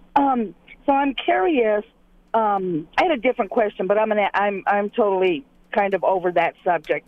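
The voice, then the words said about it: Voice sounds sick. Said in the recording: “I'm a little bit sick, so you have to excuse my voice.”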